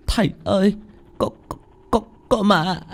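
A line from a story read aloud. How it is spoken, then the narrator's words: Stammering. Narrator (Vietnamese): Anh Khoai ú ớ lắp bắp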